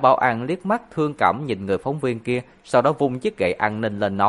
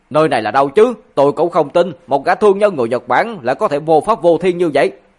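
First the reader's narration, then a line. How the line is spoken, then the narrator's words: Emotional angry scolding. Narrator (Vietnamese): có một phóng viên cảm xúc dâng trào tức giận mắng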